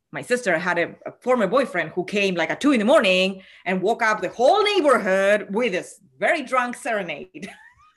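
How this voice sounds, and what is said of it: Latina accent. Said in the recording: “I am a Latina, in case you have not listened to my accent.”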